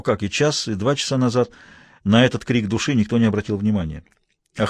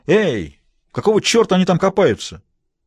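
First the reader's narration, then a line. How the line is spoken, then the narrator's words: Self-pitying shout. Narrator (Russian): Бобби стало так жалко себя крикнул в пространство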